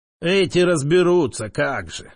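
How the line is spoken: Recovered speech, grumbling. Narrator (Russian): Вернувший дар речи, пробурчал Истринов

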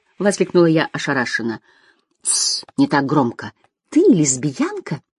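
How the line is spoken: Excited whisper. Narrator (Russian): прошептала восторженно

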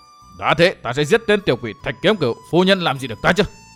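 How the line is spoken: Jealous shout. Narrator (Vietnamese): Tư Mã Xanh hơi nổi ghen quát

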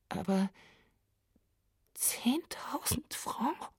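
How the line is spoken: Whispering. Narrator (German): begann Martine schließlich mit einer Flüsterstimme

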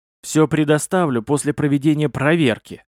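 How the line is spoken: Angry reply. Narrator (Russian): зло ответил проверяющий

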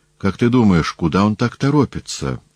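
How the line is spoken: Plain. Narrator (Russian): спросил Полибий

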